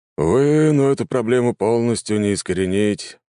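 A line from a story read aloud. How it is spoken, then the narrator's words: Sighing man. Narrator (Russian): вздохнул мужчина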